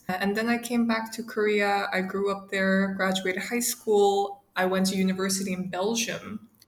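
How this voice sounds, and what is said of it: American English accent. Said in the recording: “I have this very American accent.”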